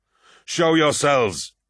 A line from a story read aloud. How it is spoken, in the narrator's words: he shouted, bellowing an ululating war cry